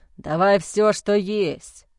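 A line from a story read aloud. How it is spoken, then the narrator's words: Stern low grumble. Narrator (Russian): строго пробурчал Уолт низким голосом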